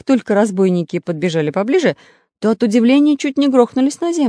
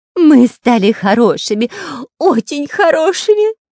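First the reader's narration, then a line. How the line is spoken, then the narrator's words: Whiny nasty voice. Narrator (Russian): заскулил противным голосом шпион Дырка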